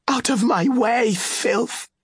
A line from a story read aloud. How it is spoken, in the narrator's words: she cried, and spoke in the sibilant Oscillian speech